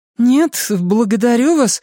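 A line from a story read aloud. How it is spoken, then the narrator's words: High childlike voice. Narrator (Russian): услышала Беверли фразу, которую ее рот произнес высоким голосом ребенка, спешащего домой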